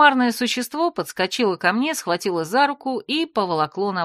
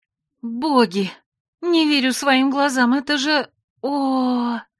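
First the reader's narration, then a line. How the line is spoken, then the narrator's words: Moaning with delight. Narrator (Russian): Застонала я от восторга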